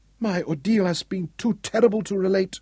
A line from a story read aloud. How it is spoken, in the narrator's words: she whimpered